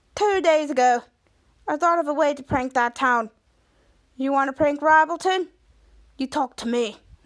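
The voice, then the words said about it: Put-on Australian accent. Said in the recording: “says in an Australian accent”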